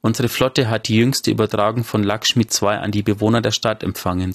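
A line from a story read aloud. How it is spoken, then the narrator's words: Plain. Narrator (German): sagte sie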